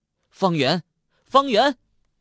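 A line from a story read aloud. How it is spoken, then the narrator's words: Loud shout echoing in basement. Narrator (Chinese): 声音在地下室里嗡嗡回响，连绵不绝，好像无数个人在地下室里高声叫喊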